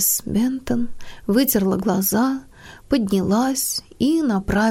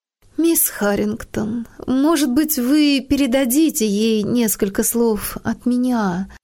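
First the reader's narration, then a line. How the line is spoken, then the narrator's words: Hesitant. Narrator (Russian): начала она неуверенно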